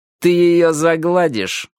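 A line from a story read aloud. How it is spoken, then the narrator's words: Through gritted teeth. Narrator (Russian): процедил Майки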